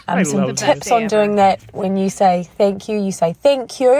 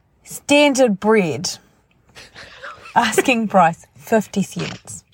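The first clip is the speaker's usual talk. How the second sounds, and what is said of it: Deliberately bad put-on Kiwi accent. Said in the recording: “in my Kiwi accent ... my really bad, probably going to be really, really bad ad. And the voice of Lorene, accent of Lorene Bowden”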